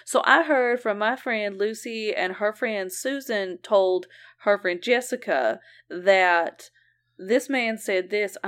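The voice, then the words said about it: Put-on Southern US accent. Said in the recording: “I don't know why I'm giving her this accent ... everyone who's English is actually from Georgia”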